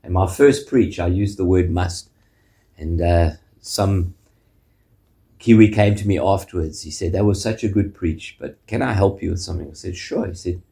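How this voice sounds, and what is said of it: South African accent. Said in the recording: “as you can hear from the accent, from South Africa”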